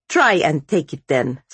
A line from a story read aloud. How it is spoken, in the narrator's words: snapped Vasya